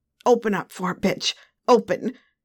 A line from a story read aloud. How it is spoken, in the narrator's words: growled